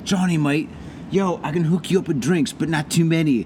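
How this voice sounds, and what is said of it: Poor put-on English accent. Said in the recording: “is that always your English accent? ... That is my English accent, mate. Well, that's my Tai Chi one ... I am very, very sorry for my horrible accent ... That's why my accent is so horrible”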